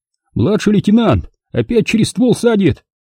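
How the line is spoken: Shouted into ear. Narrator (Russian): Крикнул в ухо Будиловскому

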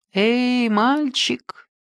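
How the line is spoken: Calm quiet call. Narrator (Russian): Спокойным тихим голосом окликнул я своего скакуна

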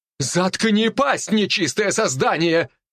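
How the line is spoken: Commander shouting. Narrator (Russian): выкрикнул командир паладинов

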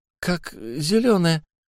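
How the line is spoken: Forced out, hesitant. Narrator (Russian): выдавил наконец он

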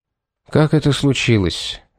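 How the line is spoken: Tired question. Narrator (Russian): устало спросил Пит

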